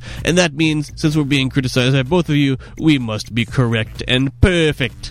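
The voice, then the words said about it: Weird put-on dialect. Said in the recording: “I don't know what accent that was. That was a, that was a weirdo dialect.”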